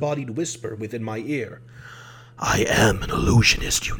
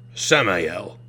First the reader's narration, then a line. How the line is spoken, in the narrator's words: Caspar said curtly